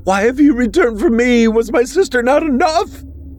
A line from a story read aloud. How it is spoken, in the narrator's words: she cried as she thrashed about